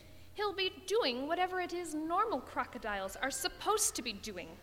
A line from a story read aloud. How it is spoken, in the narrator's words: snapped Mr